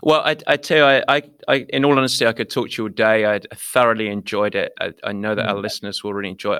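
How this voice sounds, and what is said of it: Eloquent British accent. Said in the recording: “you've got that eloquent British accent that just sounds so good too”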